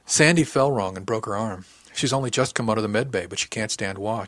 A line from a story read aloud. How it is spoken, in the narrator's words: he said